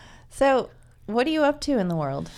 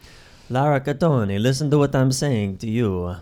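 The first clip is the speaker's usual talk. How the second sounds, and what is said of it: Put-on Italian accent sounding Indian. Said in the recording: “The true Italian way would be ... And you have to use your hands. ... All my accents end up sounding Indian eventually.”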